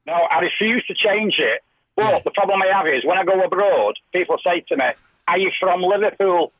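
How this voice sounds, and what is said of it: Mancunian accent. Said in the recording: “your Manc accent”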